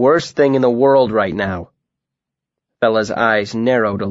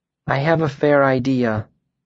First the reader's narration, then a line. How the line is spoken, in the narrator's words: Fella murmured softly